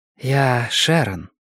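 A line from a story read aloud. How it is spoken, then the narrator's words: Low velvety female voice. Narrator (Russian): произнесла она низким бархатистым голосом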